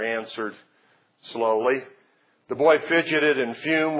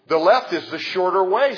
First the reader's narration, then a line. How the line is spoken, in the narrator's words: said the son